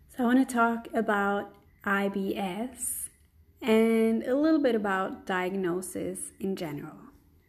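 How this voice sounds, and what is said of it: Voice sounds off from a cold. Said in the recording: “my voice is a little bit off. I just have a cold”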